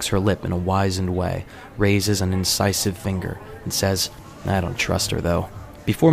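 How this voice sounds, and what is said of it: Usual voice. Nothing is said of it.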